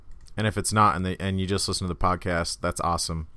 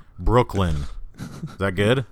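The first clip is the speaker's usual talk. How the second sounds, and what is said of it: Put-on Brooklyn accent. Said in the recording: “That's my Brooklyn accent. ... Dude, we're so good at accents.”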